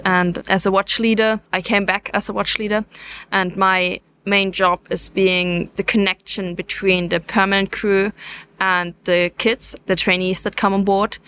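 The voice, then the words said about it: Slight German accent. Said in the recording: “You don't sound like you're from Plymouth, so there's a bit of an accent there... are you German yourself?”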